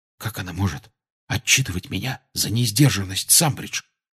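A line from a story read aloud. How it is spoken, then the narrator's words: Whisper. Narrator (Russian): шепнул Гарри Рону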